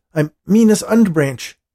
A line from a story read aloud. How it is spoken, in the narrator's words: Dean said urgently